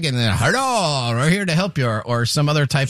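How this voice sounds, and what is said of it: German accent impersonation. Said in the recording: “German impersonation. ... That's his German impersonation.”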